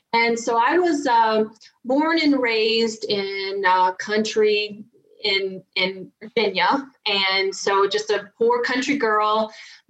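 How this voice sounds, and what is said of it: Thick Southern American accent. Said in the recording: “I've got a pretty thick Southern accent.”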